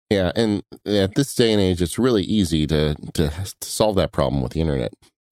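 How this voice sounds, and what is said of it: Hoarse, worn-out voice. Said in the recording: “my voice is kind of going on us ... You still got that lingering cold that's been going on for months now ... making hacking and wheezing noises”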